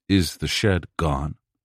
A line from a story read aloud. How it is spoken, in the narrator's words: I asked, quietly, rationally